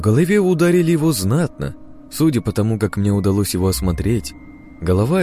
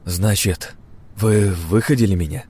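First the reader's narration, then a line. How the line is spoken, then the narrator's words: Sighing. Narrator (Russian): вздохнул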